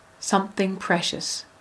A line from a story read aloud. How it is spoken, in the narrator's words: The lion paused and then said softly